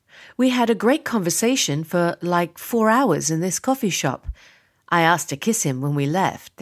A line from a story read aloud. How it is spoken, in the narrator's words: they say with a chuckle